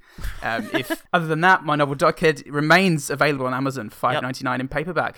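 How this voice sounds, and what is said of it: Northampton English twang. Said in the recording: “that's just my accent ... my weird sort of Northampton twang”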